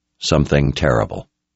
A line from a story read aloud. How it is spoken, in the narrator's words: In a quiet tone, Richard said